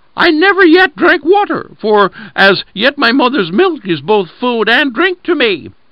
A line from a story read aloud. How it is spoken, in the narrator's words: exclaimed the lamb